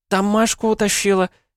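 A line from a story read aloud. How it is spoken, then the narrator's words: Squeaking. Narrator (Russian): пискнула одна из них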